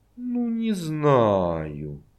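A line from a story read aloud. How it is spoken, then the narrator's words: Drawn-out drawl. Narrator (Russian): протянула она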